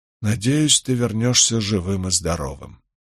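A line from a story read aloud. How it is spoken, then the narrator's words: Sigh. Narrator (Russian): вздохнул Гай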